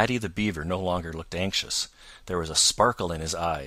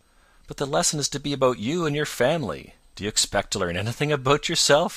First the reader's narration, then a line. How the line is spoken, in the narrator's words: he demanded, and chuckled as if he thought that was a great joke